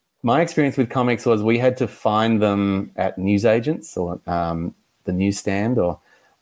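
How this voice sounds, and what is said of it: Australian accent. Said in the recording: “as you can probably tell, I live in Australia. My accent is a little bit different to yours.”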